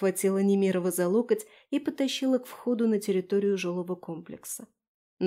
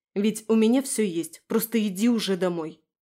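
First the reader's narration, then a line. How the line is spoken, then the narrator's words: Angry, through teeth. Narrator (Russian): процедила со злостью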